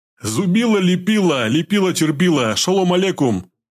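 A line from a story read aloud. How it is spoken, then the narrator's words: Deliberately loud, nasty, thuggish. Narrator (Russian): Срифмовал он нарочито громко и гадко, как гопник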